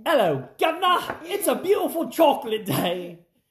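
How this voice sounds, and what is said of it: Put-on British accent. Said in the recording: “as they say on the Great British ... I don't know how to do an accent. ... Well, that's actually pretty good.”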